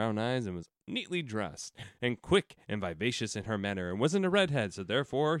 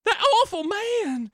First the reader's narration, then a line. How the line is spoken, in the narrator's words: she wailed